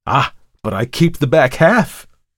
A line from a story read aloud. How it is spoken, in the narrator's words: cried Markheim